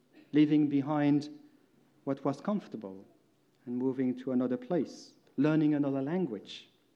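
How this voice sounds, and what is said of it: Non-native Belgian-accented English. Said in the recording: “for me it meant moving from Belgium. You most probably by now heard that my accent is a bit strange”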